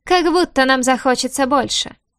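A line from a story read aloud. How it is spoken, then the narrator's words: Scoffing grunt. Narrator (Russian): хмыкнул кто-то с первых рядов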